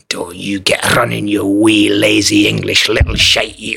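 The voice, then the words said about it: Put-on Scottish accent. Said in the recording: “the terrible just Scottish accent ... It's not bad.”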